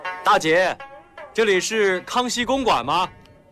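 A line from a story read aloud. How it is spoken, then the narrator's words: Loud question. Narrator (Chinese): 廖飞没有回答他的问话，却大声地问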